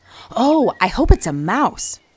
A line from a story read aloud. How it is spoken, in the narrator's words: she added too excitedly